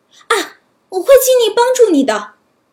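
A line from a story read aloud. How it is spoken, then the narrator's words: Startled cry. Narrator (Chinese): 小矮人吓了一大跳，惊叫道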